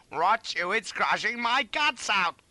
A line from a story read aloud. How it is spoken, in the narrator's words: I cried